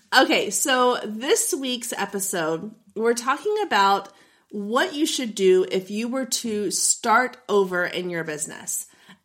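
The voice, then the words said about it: Husky, not fully recovered voice. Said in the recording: “my voice is still not 100%, I'm leaning into it Phoebe Buffay style... Phoebe gets a cold and discovers her sexy singing voice... my sexy podcast voice”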